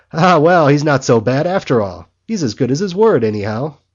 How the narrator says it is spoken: Henchy cheerfully, saying

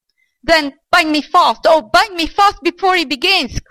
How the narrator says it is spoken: cried the old man

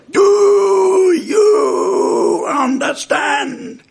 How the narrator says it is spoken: He'd repeat those words, but at the top of his voice

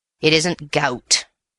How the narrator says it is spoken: said the Major gruffly

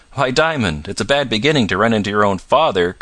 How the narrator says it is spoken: cried the driver

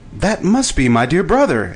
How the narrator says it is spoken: exclaimed Shaggy

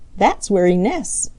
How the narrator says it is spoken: chuckled Skimmer

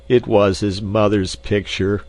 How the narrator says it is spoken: moaned the doctor

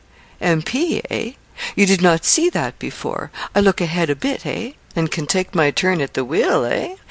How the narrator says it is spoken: he laughed with cunning exultation

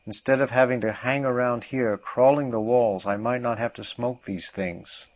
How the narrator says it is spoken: exclaimed

